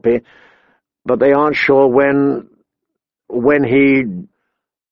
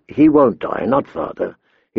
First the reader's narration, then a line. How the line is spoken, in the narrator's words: he said calmly